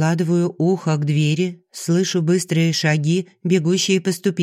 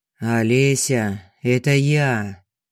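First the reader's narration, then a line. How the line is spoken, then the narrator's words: Muffled hoarse voice. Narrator (Russian): Голос Богдана звучит глухо и хрипло, словно он простужен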